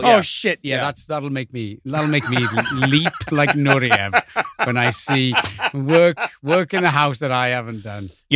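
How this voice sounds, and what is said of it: Welsh accent. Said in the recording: “Your true accent is fantastic. Though the Welsh accent might be my favorite accent.”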